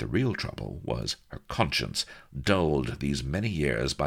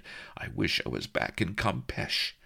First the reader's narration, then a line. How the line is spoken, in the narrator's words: whimpered